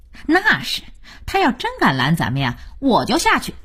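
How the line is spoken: Fawning, smiling. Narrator (Chinese): 二美满脸堆笑

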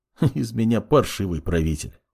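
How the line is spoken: Sad chuckle. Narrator (Russian): грустно усмехнулся маг

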